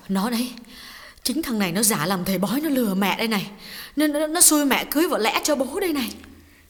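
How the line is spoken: Trembling quiet voice. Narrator (Vietnamese): Bà run run nói nhỏ với con gái

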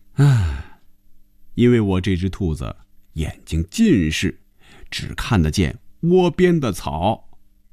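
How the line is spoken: Said with a smile. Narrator (Chinese): 红军笑了笑，说了一句

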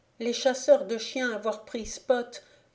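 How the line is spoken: Exclaimed in dialect. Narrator (French): s'écria-t-il dans son langage nègre

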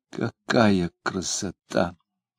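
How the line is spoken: Delighted whisper. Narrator (Russian): восторженно шептала она

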